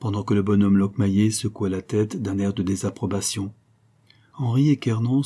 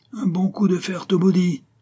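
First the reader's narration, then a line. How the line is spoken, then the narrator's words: Vociferous shouting. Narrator (French): ses vociférations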